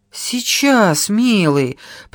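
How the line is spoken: Old woman muttering. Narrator (Russian): пробормотала старуха

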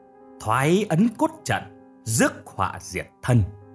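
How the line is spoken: Loud echoing shout. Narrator (Vietnamese): có tiếng quát lớn dội lại

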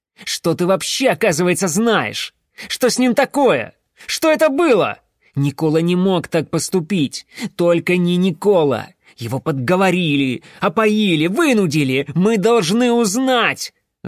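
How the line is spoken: Loud yell. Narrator (Russian): Завопил он

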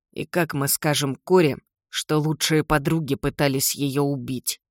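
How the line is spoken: Hiss through clenched teeth. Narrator (Russian): Сквозь стиснутые зубы прошипел Джим

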